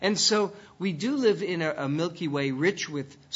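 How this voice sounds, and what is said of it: Usual voice. Nothing is said of it.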